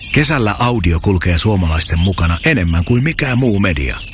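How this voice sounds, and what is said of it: Whispering voice. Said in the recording (Finnish): “Psst! ... Kesäkuiskaaja”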